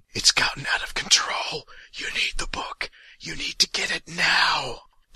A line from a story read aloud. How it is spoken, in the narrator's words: The voice in his ear is whispering